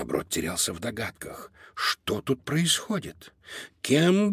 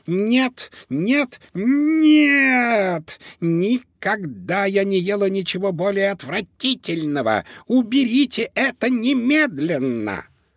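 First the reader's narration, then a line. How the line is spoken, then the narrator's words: Shrieked. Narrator (Russian): она завизжала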